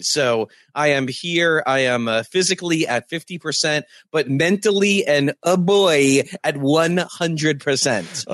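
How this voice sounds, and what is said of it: Sick, under-the-weather voice. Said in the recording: “I am super under the weather, as you'll hear in my voice”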